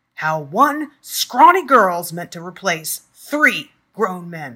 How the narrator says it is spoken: bellowed

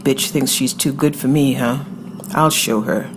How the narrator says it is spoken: she'd muttered

